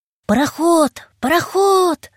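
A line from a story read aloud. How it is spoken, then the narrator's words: Shout. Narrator (Russian): закричал я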